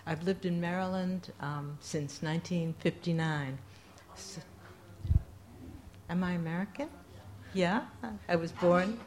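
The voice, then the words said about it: New York accent. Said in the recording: “I still can hear it in my voice and my accent and feel like a New Yorker”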